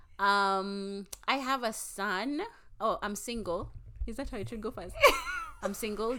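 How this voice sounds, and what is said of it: Kenyan accent with American influence. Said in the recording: “I got an accent because I'm in Atlanta at the moment, but I'm from Nairobi.”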